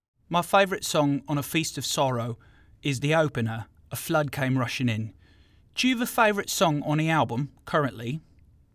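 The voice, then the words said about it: Put-on South London accent. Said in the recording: “I'd like to ask you a question in my best South London accent”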